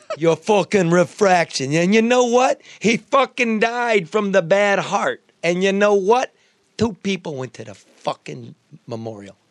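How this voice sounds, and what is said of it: New York accent. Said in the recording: “The accent. ... That's just fucking New York.”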